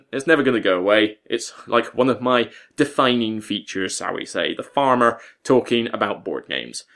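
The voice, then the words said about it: West Country English accent. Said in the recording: “back to the West Country, my neck of the woods ... my accent doesn't stick out quite so much like a sore thumb, because so many people comment about my accent”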